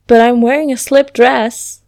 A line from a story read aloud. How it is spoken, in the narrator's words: informed excitedly